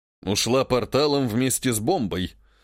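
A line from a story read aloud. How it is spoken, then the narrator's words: Gruff mutter. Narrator (Russian): буркнул император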